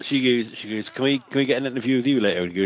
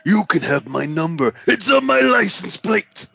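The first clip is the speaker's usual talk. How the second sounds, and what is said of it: Low-pitched wrestler voice impression. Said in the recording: “Very good impression... I do a cracking Macho Man... You got to be able to bring it down low.”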